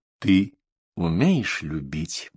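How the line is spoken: Sudden quiet question. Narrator (Russian): вдруг тихо спросил Офра

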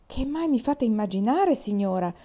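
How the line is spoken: Shouted. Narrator (Italian): gridò il signor di Clèves

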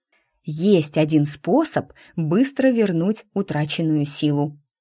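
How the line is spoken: Whisper. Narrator (Russian): прошептала Бада

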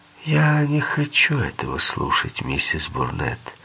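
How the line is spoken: Calm. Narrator (Russian): спокойно проговорил Хейр

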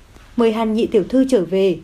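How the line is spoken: Sighing. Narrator (Vietnamese): Lâu Thất thở dài

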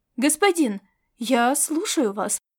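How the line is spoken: Impatient exclamation. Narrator (Russian): нетерпеливо воскликнул администратор, когда молчание затянулось

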